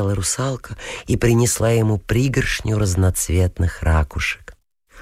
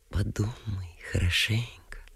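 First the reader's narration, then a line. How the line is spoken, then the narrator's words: Soft coaxing. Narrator (Russian): тихо приговаривала русалка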